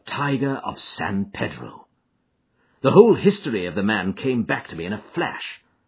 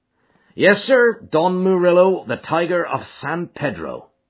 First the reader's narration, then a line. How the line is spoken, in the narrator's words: said Baines